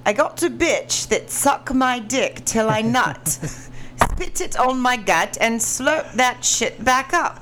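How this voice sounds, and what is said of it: Put-on British accent. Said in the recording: “In a British accent. ... English accent”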